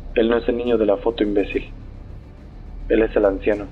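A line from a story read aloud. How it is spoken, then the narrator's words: Mocking tone. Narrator (Spanish): dijo en tono de burla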